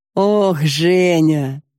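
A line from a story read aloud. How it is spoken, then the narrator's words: Laughing. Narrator (Russian): засмеялся он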